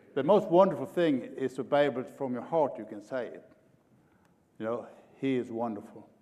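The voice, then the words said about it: Swedish-influenced Oklahoma English accent. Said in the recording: “I'm from Oklahoma and I have a little bit different accent ... I'm an Okie from Sweden”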